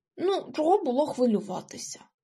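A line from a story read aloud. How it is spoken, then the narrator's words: Grumbled. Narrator (Ukrainian): буркнув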